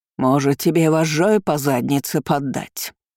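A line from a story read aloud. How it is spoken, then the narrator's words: Rude reply. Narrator (Russian): грубо отозвалась Ангелина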